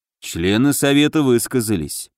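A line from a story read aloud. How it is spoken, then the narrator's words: Gloomy remark. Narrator (Russian): мрачно обронил Муром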